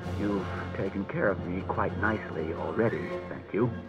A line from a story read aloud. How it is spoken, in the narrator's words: said Bailey grimly